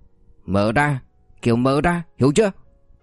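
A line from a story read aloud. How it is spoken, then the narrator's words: Loud shout. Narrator (Vietnamese): Liễn hét to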